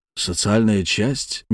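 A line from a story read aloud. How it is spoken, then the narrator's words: Soft question. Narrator (Russian): мягко спросил Боярский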